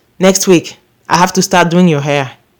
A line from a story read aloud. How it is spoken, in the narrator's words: after a big sigh, she would say